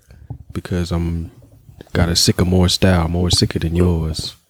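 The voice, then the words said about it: Low, creepy voice. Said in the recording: “you sound sick? ... Why did you just get so low and creepy?”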